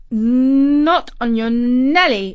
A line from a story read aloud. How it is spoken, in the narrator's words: exclaimed Katie